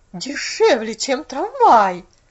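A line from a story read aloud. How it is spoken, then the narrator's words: Bewildered exclamation. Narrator (Russian): воскликнула миссис Керри в недоумении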